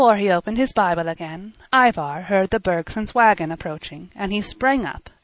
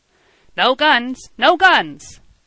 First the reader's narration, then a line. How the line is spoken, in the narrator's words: he shouted